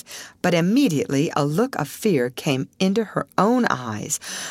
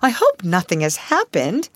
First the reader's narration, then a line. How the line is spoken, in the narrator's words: she sat up suddenly, exclaiming